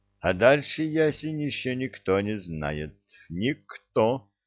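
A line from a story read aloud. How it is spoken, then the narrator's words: Plain. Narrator (Russian): сказал Кедр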